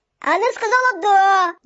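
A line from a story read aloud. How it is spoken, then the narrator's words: Shouted. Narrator (Russian): закричал всякограб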